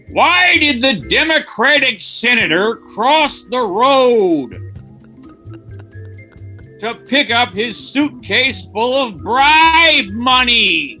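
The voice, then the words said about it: Impression of comedian Neil Hamburger. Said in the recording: “my impression of cult stand-up comedian Neil Hamburger if he were to do a politics block”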